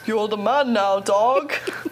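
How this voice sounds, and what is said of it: Poor imitation of another person's voice. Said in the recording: “with a Sean Connery accent ... Gosh, that's terrible.”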